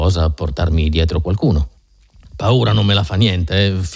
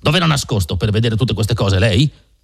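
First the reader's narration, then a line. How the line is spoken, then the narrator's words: Yelled. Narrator (Italian): urlò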